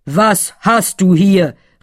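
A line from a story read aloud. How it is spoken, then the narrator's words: Calling out. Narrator (German): rief er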